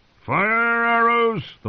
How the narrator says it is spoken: the Lord Commander roared

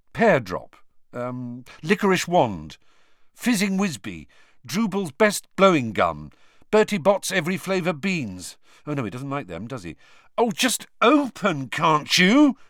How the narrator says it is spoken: he said angrily

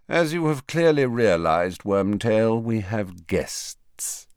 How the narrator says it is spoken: said Snape lazily

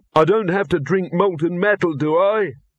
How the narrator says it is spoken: Victor quavered

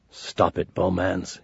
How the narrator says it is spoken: muttered

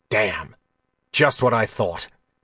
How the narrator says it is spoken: he said, his voice harsh in the quiet of the Jadwin hallway

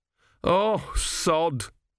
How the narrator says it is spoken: moaned Gurn

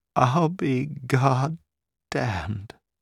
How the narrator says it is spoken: she said brokenly

